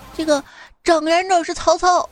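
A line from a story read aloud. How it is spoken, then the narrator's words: Loud shout. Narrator (Chinese): 大叫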